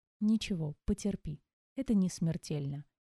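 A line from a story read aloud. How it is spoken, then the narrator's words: Gentle. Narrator (Russian): мягко произнес лекарь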